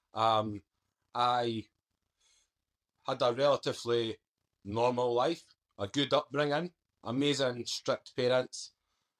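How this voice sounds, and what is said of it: Scottish Edinburgh accent. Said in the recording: “So I'm born in Edinburgh, Scotland. You may well tell with the accent.”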